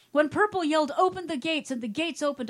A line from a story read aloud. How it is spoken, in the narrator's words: I cried